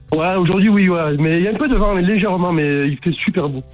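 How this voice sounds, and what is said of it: Noticeable regional French accent. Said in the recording (French): “on entend l'accent. Ah, j'adore ton accent.”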